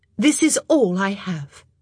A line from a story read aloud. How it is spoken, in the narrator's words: she said firmly